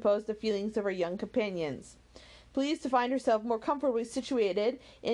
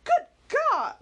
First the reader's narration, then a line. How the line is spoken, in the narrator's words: cried Marianne